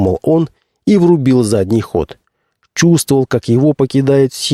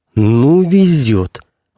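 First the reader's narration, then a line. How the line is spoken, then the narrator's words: Through gritted teeth. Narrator (Russian): бросил он сквозь зубы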